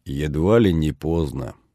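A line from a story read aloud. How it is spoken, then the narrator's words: Gloomy summing up. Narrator (Russian): мрачно подытожил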